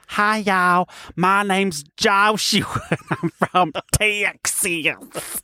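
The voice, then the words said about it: Put-on American Southern accent. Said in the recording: “If I was going to do it as an American ... But I don't speak like that. I speak like this.”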